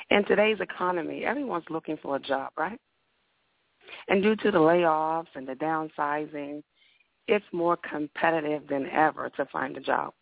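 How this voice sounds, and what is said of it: Raspy voice. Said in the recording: “I do have a raspy voice”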